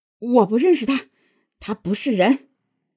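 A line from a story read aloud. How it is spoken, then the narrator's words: Furious. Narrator (Chinese): 孟母一听，勃然大怒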